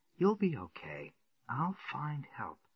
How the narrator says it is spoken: he said gently

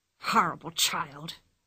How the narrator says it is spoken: hissed the ringmaster between his teeth

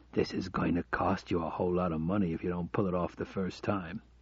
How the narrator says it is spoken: He whispered in his ear

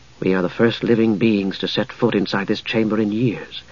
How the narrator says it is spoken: Palin said softly

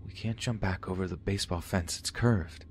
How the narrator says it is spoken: I whispered

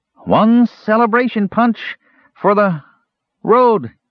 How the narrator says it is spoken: cried the Kender

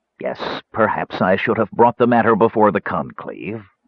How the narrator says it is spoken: Parsalian said, his voice sharp

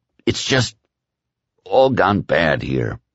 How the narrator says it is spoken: Whitney said miserably

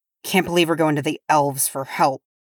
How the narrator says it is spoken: grumbled Nori

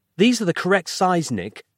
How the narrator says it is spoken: Roz snapped testily

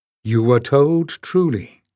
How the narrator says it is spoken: she said

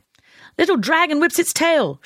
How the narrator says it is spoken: she shouted

